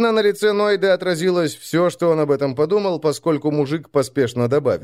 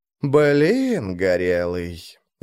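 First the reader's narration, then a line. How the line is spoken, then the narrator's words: Disappointed drawl. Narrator (Russian): разочарованно протянул Варху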